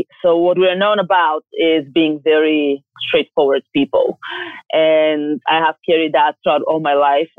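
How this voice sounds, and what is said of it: Bulgarian accent. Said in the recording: “by my accent, you can recognize that I'm from Texas. Just kidding. I'm from Bulgaria”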